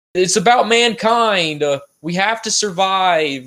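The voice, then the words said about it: Matt Damon impression. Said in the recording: “That was my Matt Damon impression.”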